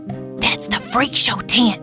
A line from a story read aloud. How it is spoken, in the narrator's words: she whispered